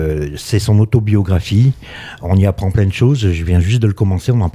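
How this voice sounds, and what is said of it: Usual voice. Nothing is said of it.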